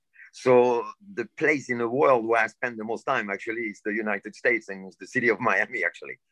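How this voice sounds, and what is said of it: Non-native English accent. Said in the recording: “And I still have my accent. ... Well, the accent is cool.”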